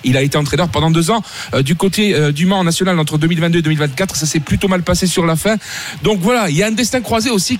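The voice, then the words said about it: Sing-song Corsican French accent. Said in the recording (French): “l'accent ... c'est l'accent chantant ... de la Corse.”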